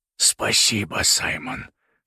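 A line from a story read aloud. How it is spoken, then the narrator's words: Hoarse with delight. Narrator (Russian): хрипло от восторга произнес он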